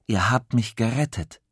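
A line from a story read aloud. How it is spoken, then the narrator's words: Plain. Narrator (German): sagt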